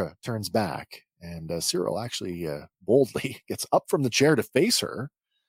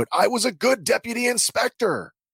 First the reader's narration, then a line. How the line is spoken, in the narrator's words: Cyril shouts out